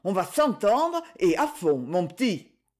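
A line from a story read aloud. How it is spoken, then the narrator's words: Exclaimed. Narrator (French): s'exclama Madame Angélique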